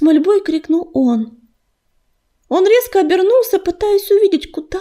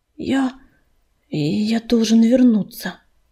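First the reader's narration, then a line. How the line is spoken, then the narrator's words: Hoarse exhale. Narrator (Russian): хрипло выдохнул ураган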